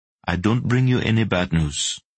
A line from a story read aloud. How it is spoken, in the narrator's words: he said in a softly accented voice